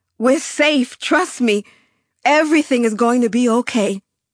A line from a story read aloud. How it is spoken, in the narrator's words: I shouted at my companions